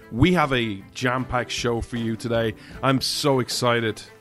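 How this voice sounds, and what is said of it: Irish accent. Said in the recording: “This Irishman stands with America... where you come for the accent”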